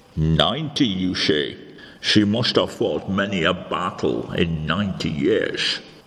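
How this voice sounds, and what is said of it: Scottish accent. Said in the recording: “it's your accent. ... Are you suggesting that I have got a Scottish accent? ... I fear you have”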